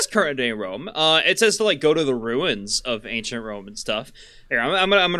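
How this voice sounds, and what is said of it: Usual voice. Nothing is said of it.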